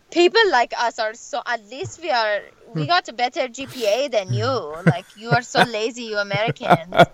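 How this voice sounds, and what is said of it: Put-on Persian accent. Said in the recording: “I love your accent when you're doing your parents ... that's like the normal Persian accent”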